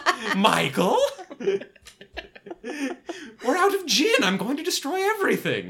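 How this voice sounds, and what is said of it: Effeminate 1950s sitcom neighbor voice. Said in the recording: “What is this accent? ... it kind of sounds like an effeminate. ... Like 1950s neighbor on a sitcom.”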